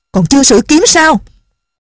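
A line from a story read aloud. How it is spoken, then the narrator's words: Angry shout. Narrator (Vietnamese): Bất giác bà tức giận quát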